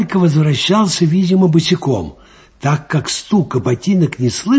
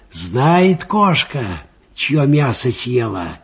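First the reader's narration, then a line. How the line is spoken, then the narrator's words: Quiet. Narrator (Russian): негромко сказал Аниськин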